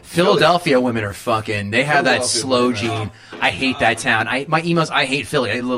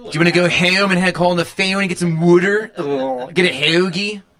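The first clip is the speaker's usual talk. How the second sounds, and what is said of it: Exaggerated Philadelphia accent. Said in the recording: “That's a Philly accent. That's a 700 level of the fucking old vet stadium fucking accent.”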